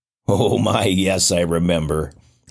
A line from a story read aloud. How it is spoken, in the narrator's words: laughed